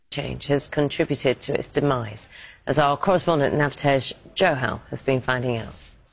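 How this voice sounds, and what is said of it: British accent. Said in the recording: “he's British... it's the accent?”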